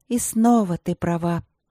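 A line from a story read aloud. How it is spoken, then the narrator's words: Sighing. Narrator (Russian): вздохнула Василина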